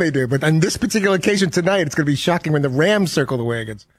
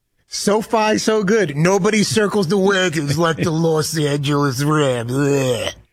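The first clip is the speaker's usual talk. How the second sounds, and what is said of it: Imitates a sportscaster's voice. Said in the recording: “You're much better Chris Berman impersonation.”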